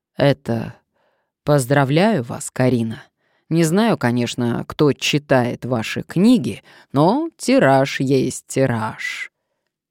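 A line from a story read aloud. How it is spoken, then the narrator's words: Throat-clearing, deep solemn bass. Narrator (Russian): Корней Потапов солидно откашлялся и проговорил густым волжским басом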